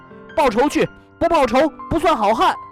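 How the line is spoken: Shouting. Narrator (Chinese): 他嚷道

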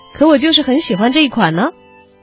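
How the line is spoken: Sudden coy reply. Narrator (Chinese): 江波笑着，突然麻嗖嗖的回了一句

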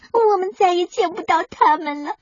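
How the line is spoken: Crying. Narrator (Chinese): 小墨迹哭道

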